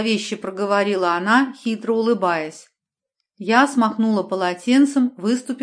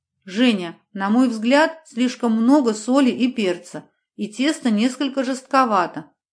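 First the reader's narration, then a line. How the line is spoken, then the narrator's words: Plain. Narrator (Russian): ответила тетя Мила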